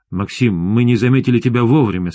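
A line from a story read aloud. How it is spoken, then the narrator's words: Plain. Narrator (Russian): сказал я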